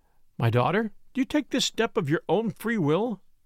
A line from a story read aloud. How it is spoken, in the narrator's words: asked the minister in a trembling voice